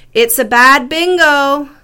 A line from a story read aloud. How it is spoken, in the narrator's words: the girl shouted